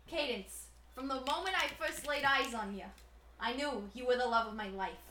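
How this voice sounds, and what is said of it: Put-on New Jersey mobster accent. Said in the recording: “I liked your Jersey one ... Something like Sopranos.”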